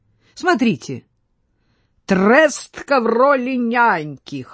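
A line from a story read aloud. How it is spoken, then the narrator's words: Loud laughing. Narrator (Russian): хохотал Брохвич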